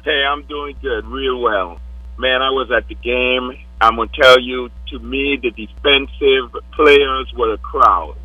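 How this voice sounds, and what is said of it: Hoarse, nearly lost voice. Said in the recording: “I've just about lost my voice”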